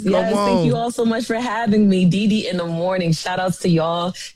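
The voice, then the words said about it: New York or New Jersey accent. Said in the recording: “I love that accent. Y'all hear her accent? That's that real New York accent ... That's that Jersey.”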